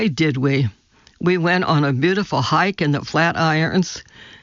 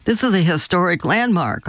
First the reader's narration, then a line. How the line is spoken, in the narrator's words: I said